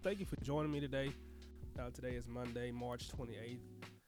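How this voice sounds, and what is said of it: Sick-sounding, congested voice. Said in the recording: “I've been kind of sick. I don't know if you can tell it in my voice, but I've been kind of sick ... I get sinus stuff”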